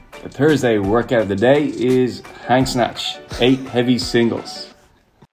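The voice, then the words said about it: Put-on American accent. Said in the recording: “What was up with that American accent?”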